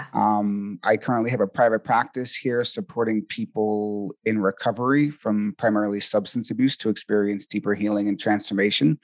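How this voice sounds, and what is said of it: Slight Boston accent. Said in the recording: “I'm originally from Boston, Massachusetts, so you might hear a little bit of a Boston accent.”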